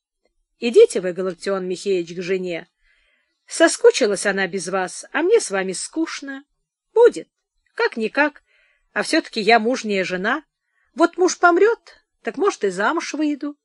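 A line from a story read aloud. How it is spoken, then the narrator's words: Businesslike, tearless tone. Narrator (Russian): Прасковья Ивановна объявила Галактиону без слез и жалоб деловым тоном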